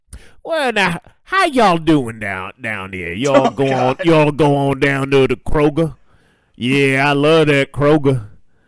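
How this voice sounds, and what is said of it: Put-on Atlanta Southern accent. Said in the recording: “that's a perfect Atlantean accent.”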